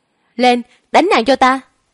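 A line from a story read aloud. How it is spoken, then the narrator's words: Loud shout. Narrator (Vietnamese): Niên Tiểu Đao hét lớn một tiếng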